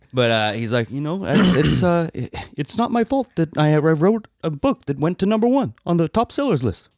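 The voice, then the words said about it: Imitates another person's voice, poorly. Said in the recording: “my Bernie Sanders impression. ... It wasn't your best. ... It was moderate. ... That was bad.”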